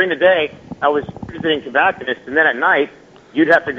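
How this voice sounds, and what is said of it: Usual voice. Nothing is said of it.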